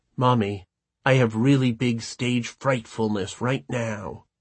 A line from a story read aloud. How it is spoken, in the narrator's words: She whispered